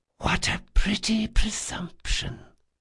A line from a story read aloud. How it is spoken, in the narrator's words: whispered, and there was acid beneath her words